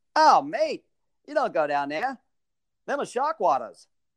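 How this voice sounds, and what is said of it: Badly imitated Australian accent. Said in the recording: “Australian ... accent. ... I'm going to butcher this accent.”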